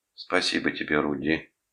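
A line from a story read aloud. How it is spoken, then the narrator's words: Quiet reply. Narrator (Russian): тихо ответила она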